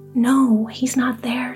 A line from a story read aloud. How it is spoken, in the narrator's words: she cried